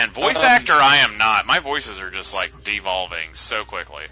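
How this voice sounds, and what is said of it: Usual voice. Nothing is said of it.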